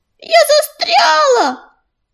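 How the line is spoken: Squirrel's shout. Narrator (Russian): кричала белочка

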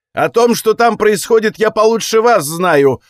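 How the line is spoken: Emotional priest's outburst. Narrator (Russian): выкрикнул на эмоциях жрец

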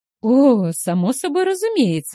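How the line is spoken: Exclaiming. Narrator (Russian): воскликнула Стейси

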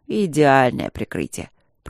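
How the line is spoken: Grumbled. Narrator (Russian): пробурчал Тандаджи

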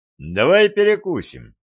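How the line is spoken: Cheerful suggestion. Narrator (Russian): весело предложил он

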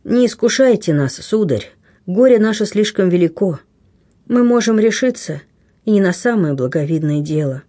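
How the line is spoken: Sad. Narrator (Russian): грустно отвечала рыбачка

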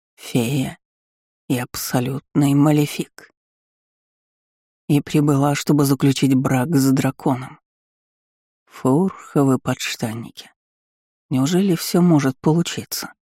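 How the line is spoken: Eager hopeful mutter. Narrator (Russian): Пробормотал Вальтер, глядя на меня со странной смесью азарта и надежды

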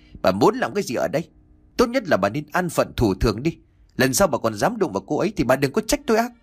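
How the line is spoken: Furious tearful shout. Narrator (Vietnamese): ông Chánh đôi mắt đỏ hoe long lên giận dữ quát

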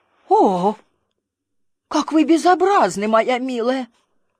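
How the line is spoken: Old woman exclaiming. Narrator (Russian): старая дама воскликнула

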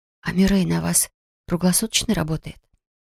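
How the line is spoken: Whisper. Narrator (Russian): шепнула я Грегхану

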